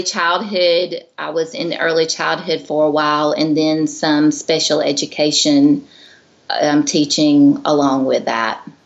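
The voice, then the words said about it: Southern American accent. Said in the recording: “they can probably hear from your accent that you're not ... I'm from Georgia”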